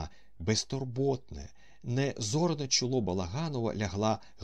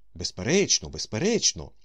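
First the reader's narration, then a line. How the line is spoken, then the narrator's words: Cheerful. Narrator (Ukrainian): весело сказав Остап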